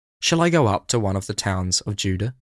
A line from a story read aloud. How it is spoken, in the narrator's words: he asked